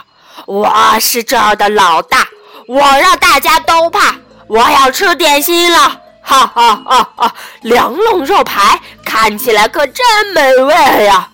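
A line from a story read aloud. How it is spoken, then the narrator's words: Deafening roar. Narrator (Chinese): 泰伦的叫声震耳欲聋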